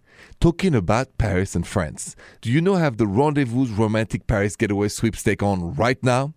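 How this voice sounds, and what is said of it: French accent. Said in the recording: “this accent is French”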